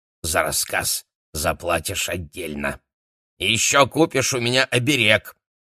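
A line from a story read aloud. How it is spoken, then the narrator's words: Demanded. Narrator (Russian): потребовала она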